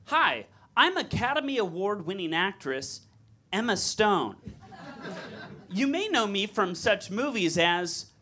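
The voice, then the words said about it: Imitates another person's voice. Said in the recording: “my celebrity impression”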